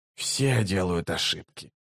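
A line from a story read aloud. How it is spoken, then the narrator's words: Muttering. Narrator (Russian): пробормотал Раллик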